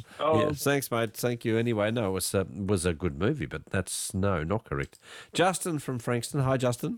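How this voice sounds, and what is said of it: Snuffly, congested voice. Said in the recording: “You sound a bit different tonight ... I'm a bit snuffly”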